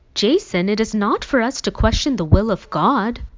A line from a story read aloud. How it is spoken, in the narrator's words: finally exclaimed